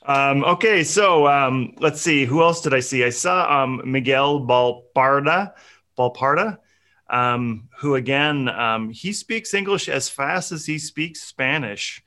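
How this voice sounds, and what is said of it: Speaks with a noticeable accent. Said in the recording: “trying to figure out what the heck I'm saying ... it's your accent.”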